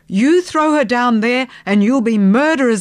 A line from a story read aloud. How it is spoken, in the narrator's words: I yelled